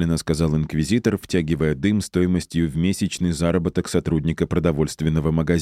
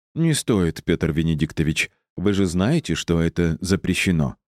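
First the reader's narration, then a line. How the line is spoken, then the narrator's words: Gentle objection. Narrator (Russian): мягко возразил Карло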